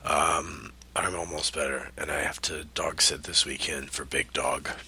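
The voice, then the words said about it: Congested, unwell-sounding voice. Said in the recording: “I got a cold, so that's why my voice sounds like this. It's not great.”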